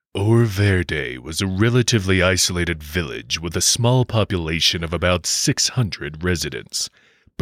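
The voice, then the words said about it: Dramatic 80s mystery show announcer. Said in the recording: “80s primetime mystery show announcer voice.”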